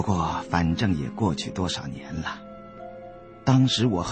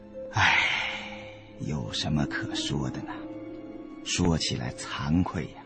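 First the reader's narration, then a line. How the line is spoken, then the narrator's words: Sighing. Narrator (Chinese): 孙教授叹道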